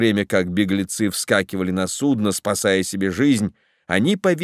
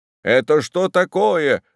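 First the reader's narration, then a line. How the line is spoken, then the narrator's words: Yelled. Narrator (Russian): заорал один из недовольных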